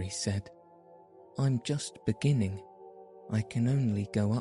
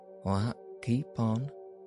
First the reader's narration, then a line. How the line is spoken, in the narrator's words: said Ben